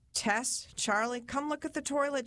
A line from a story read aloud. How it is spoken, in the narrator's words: said